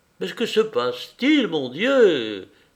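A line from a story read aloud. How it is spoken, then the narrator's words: Desperate exclamation. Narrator (French): s'écria-t-il désespérément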